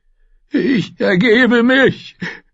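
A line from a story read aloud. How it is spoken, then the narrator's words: Man sobbing hopelessly. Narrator (German): schluchzte der Mann hoffnungslos und hilflos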